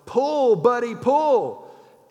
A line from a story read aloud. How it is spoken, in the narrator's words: the farmer he yells